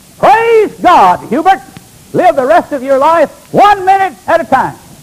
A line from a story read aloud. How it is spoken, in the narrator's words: his pastor let out a yell